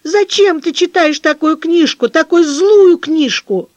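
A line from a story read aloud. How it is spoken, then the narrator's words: Crying shout. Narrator (Russian): Катя заплакала и закричала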